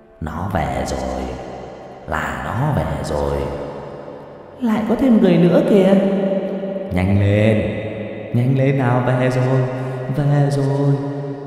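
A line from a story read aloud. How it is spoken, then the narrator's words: Muttering. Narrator (Vietnamese): Họ miệng cứ lẩm bẩm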